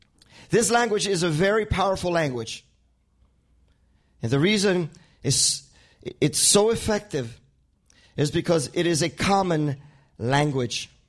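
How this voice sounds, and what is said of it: Spanish accent. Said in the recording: “I don't know if you can hear my accent. ... My first language is Spanish.”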